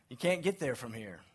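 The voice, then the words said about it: Put-on Maine accent. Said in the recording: “The Maine accent.”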